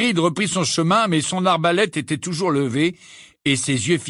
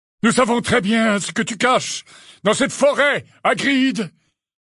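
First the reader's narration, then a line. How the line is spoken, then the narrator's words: Shouted. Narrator (French): leur cria Magorian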